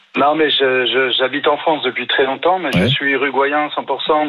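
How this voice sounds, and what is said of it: Slight foreign accent. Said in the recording (French): “Il y a un petit accent”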